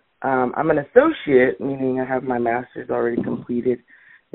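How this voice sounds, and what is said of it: Deep voice, recovering from cold. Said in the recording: “I apologize for my voice as well. It's deep already, but I I'm I just got over a cold”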